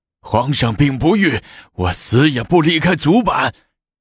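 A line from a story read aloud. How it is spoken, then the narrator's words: Shouting while struggling. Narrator (Chinese): 严朝隐挣扎着不愿下来，嘴里大叫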